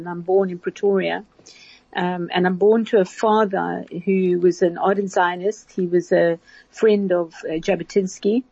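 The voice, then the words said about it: South African accent. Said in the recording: “as you can hear from my accent, I'm actually a South African.”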